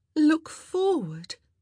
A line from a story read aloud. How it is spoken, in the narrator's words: she groaned to Antony